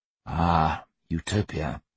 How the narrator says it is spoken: Hugh said wearily

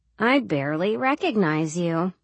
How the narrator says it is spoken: Dina said dryly

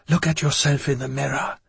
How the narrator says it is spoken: she whispered

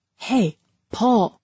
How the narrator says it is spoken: whispered up the ladder

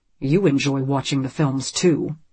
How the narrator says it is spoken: Graham says

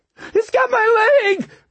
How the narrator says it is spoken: Duffy screamed

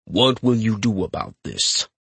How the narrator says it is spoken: Capstan growls, his voice so low it reverberates in my chest

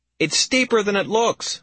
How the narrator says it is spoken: I yelled, straining to make myself heard over the tempest

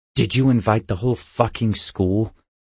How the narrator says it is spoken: I snarled

